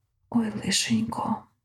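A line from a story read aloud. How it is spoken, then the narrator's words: Whispered. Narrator (Ukrainian): прошепотів Азрафаїл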